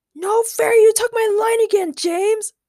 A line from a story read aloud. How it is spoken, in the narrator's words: Ray screamed indignantly